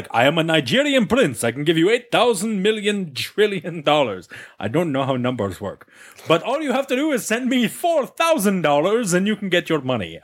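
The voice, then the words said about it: Put-on foreign accent. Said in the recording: “I don't think it's a Nigerian accent. I don't know what accent I was just trying to do there.”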